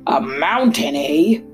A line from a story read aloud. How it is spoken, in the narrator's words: growled the lion, almost deafening the little mouse